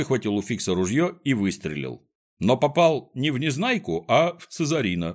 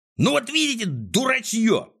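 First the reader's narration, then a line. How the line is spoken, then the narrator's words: Yelling. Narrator (Russian): заорал Клопс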